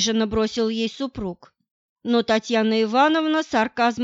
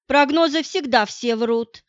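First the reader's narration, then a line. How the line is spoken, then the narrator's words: Indignant snort. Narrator (Russian): фыркнула она возмущенно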